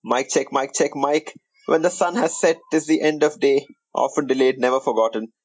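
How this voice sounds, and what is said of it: Indian accent. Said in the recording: “your favorite NBA podcast in an Indian accent.”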